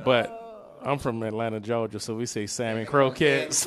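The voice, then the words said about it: Put-on Southern US accent. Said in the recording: “I love that you put on the Southern accent,”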